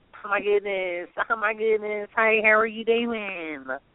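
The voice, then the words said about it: Put-on Southern American woman accent. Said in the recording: “my country woman accent ... This is my southern mama accent”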